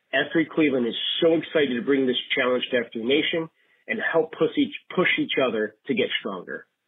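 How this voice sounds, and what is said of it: Midwestern American accent. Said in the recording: “I love a Midwest accent. Love a Midwest accent”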